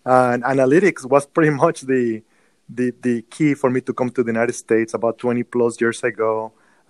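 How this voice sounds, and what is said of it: Mexican accent in English. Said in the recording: “born and raised in Mexico, as you can tell by my accent.”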